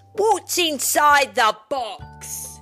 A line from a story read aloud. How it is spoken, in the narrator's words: Rex Fury shouted